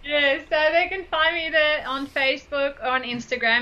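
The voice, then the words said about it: Strong foreign accent. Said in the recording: “excuse the accent, so you might have to type it down”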